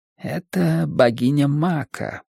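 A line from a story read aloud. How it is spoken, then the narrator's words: Whispered announcement. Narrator (Russian): объявил он шепотом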